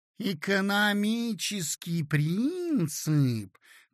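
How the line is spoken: Sweet drawling voice. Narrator (Russian): протянула она симпатическим голоском

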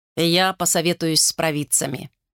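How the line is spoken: Plain. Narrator (Russian): сказал он

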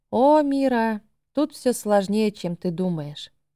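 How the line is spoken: Sighing. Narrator (Russian): вздохнула Гилли

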